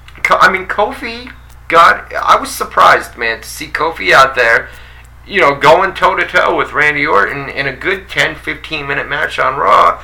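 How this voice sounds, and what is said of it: Thick New York accent. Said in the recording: “You got a thick New York accent.”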